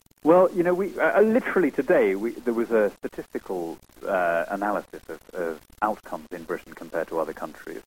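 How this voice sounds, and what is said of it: British accent. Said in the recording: “you are British by birth, and obviously your accent gives that away”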